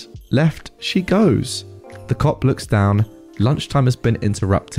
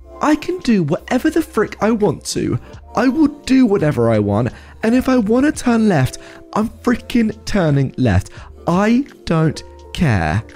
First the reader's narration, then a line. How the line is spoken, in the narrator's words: lady yells out